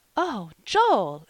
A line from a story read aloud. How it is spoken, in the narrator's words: exclaimed Polly, quite shocked